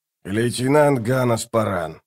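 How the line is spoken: Captain grumbling. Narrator (Russian): проворчал капитан

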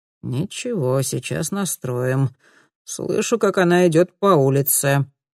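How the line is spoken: Remark. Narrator (Russian): заметил специалист

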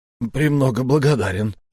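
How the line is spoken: Embarrassed mumbling. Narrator (Russian): промямлил Рокотов, теперь уже малиново-алый от смущения

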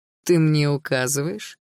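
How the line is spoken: Lazy smirk. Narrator (Russian): лениво ухмыльнулся Руслан

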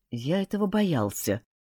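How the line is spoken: Muttered. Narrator (Russian): пробормотал Пуаро

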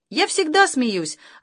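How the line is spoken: Joyful. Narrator (Russian): радостно откликнулась мама

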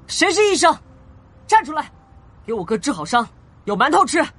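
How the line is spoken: Loud shout. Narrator (Chinese): 严六元高喊

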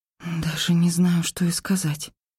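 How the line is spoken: Whisper. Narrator (Russian): прошептала я

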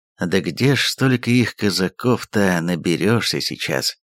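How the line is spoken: Heavy sigh. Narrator (Russian): тяжело вздохнул он

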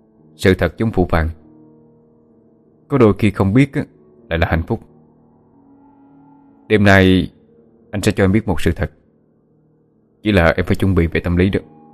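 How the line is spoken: Mysterious, stern voice. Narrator (Vietnamese): Phượng Thánh với vẻ bí ẩn, rồi nghiêm giọng nói

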